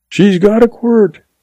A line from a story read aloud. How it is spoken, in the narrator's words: yells back